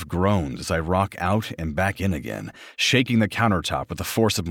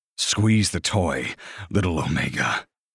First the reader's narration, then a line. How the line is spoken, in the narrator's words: snarl near mad with desire